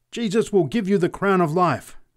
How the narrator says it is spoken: screamed the preacher exultantly

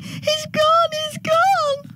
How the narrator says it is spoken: They tend to rush off wailing

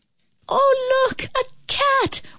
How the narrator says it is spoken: one of the children cried out

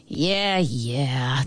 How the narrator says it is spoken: the ant mumbled

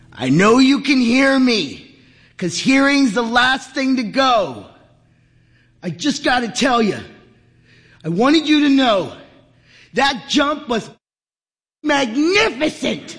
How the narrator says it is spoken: Henry leaned in close and bellowed into his ear

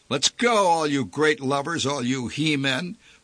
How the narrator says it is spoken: barked a man

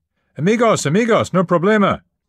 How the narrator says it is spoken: screaming

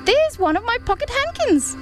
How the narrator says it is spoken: cried Lucy

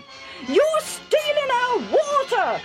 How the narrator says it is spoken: they shouted

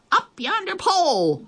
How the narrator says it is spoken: the others shouted

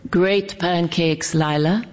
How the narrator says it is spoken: he said

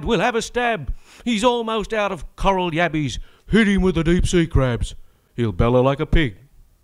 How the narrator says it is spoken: Fraser cried

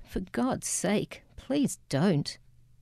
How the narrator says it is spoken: she pleaded

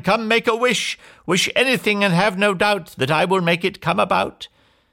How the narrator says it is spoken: she cried

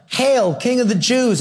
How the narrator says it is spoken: They were yelling

